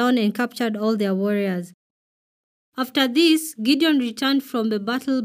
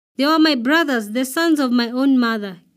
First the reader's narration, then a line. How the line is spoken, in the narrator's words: Gideon exclaimed